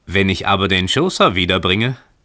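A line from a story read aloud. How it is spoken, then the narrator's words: Calling out. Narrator (German): rief der Fremde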